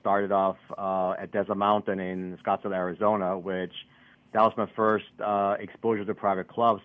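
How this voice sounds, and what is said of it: Austrian accent. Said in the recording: “as you keep a funny accent, yes, I'm from Austria”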